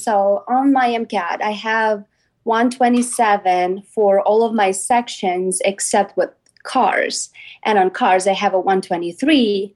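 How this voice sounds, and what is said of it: Non-native English accent. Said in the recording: “You are an English as a second language student ... your accent”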